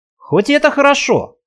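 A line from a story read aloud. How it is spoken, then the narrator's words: Snort. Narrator (Russian): хмыкнул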